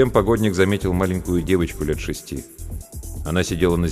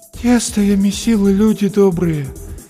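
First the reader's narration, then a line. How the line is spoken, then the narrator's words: Tired, hopeless voice. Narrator (Russian): повторяла женщина усталым и безнадежным голосом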